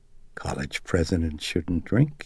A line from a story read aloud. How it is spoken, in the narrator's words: he murmured